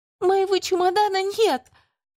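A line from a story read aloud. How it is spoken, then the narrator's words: Near tears. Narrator (Russian): уже готовая разрыдаться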